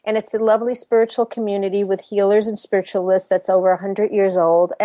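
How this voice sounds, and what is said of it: New York accent. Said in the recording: “born and raised in New York, as you might be able to hint from my accent”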